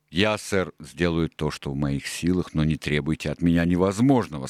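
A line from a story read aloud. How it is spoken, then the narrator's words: Plain. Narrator (Russian): сказал Сильвер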